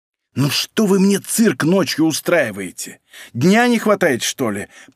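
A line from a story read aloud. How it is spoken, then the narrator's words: Hissing young woman. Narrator (Russian): прошипела девушка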